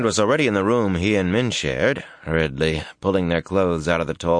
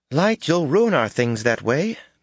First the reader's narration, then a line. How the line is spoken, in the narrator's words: Min exclaimed